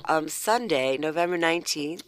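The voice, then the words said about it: Congested voice from a cold. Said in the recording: “I have a cold. ... I'm a little fuzzy.”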